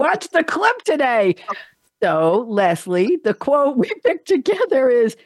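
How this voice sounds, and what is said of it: Usual voice. Nothing is said of it.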